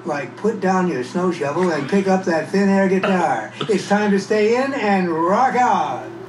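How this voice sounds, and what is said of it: Announcer-style radio voice. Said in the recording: “my radio voice”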